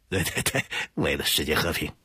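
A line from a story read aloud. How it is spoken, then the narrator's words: Smiling. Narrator (Chinese): 明航一笑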